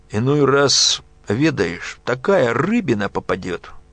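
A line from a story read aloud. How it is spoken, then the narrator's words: Speaking with a burr. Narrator (Russian): говорил Глеб картавя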